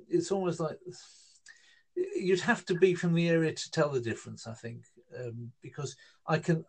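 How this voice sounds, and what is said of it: North London Hertfordshire English accent. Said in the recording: “we're talking like this in kind of North London kind of Hertfordshire fringe kind of accents”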